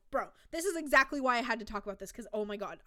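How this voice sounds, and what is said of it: Very fast, excited speech. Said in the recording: “I'm talking so fast because I get so excited about this.”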